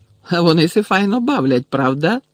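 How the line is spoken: Joyful question. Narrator (Ukrainian): радісно спитав Гегрід

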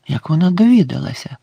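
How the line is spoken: Whispered, male. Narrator (Ukrainian): прошепотів він

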